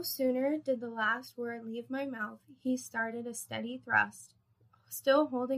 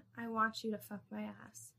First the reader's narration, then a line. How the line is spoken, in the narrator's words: quietly said